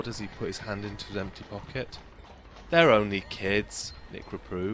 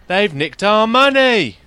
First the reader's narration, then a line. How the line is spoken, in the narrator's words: Rob bellowed in outrage